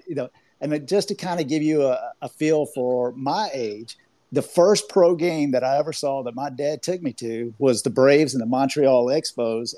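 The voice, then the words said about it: Slight Southern US accent. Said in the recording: “I have a little bit of a Southern accent. I'm from Georgia”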